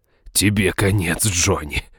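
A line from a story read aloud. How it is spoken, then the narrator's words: Menacing growl. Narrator (Russian): прорычал он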